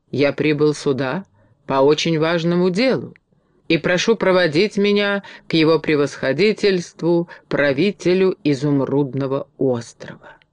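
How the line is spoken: Calm reply. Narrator (Russian): Билан спокойно ответил

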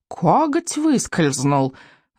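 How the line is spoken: Whining creature. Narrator (Russian): заскулил крючкозуб

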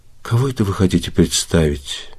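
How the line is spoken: Quiet question. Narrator (Russian): тихо спросила Елизавета Ивановна

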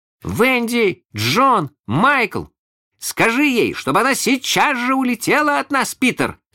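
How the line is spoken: Three shouting together. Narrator (Russian): закричали все трое разом

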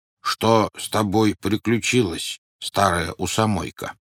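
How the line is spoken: Plain donkey. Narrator (Russian): спросил осел

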